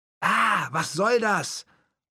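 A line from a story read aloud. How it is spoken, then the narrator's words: Yelling over noise. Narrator (German): brüllte ich über den Lärm hinweg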